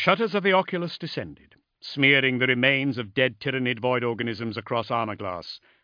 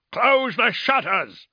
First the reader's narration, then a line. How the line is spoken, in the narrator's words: bellowed Erwin